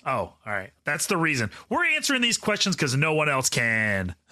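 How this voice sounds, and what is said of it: Put-on confident radio broadcaster voice. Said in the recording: “Is that your radio voice?”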